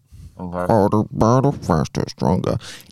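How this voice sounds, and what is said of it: Robotic voice. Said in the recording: “The robot voice. ... that kind of voice”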